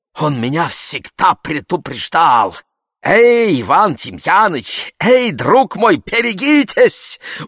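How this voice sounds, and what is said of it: Growing louder, noticeable German accent. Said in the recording (Russian): “сперва тихим голосом, а потом все громче и громче, и, к удивлению моему, с заметным немецким акцентом”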